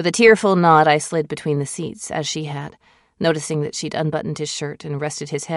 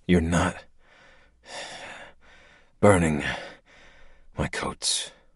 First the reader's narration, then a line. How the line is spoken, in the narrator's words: mumbled